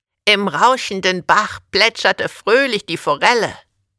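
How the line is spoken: Croaked. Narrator (German): krächzte

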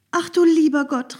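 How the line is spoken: Calling out. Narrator (German): rief Maren

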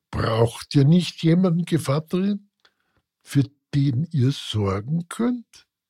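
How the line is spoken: Plain. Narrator (German): fragte Baschik

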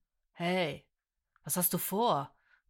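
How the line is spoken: Irritated growl. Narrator (German): knurrte ungehalten

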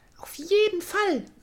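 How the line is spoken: Called out. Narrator (German): rief Florencia

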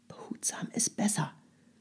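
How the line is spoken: Whispering. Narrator (German): flüsterte Herr Sesemann

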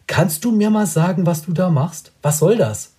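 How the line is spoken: Calls out. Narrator (German): ruft er

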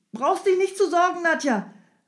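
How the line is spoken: Calling out. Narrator (German): rief Strogoff

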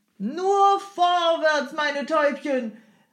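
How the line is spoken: Coachman calling out repeatedly. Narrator (German): rief der Jemschik unentwegt

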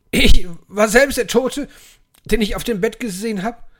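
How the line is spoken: Exclaiming. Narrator (German): rief Scrooge aus

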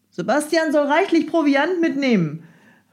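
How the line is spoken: Calling out. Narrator (German): rief Herr Sesemann Fräulein Rattenmeier zu

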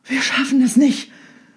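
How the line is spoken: Panting ferryman. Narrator (German): keuchte der eine Fährmann

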